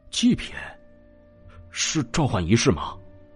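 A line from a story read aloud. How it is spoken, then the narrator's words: Hoarse and slow. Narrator (Chinese): 楚风嘶哑的缓缓道来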